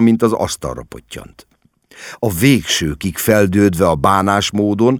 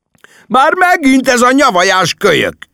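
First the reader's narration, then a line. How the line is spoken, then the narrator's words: Angry yelling. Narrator (Hungarian): üvöltött Larry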